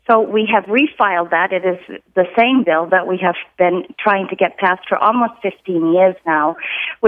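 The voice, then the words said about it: Massachusetts accent. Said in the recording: “I just love that Massachusetts accent.”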